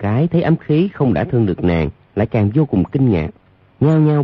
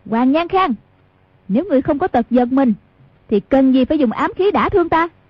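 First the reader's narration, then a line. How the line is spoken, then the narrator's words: Sharp shout. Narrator (Vietnamese): Hoàng Dung quát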